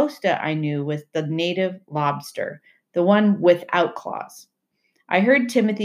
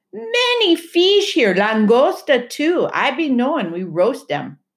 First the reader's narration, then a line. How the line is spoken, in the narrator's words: Timothy shouted up from the water